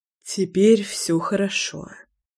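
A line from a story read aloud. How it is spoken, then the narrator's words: Breathed out. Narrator (Russian): выдохнул Леша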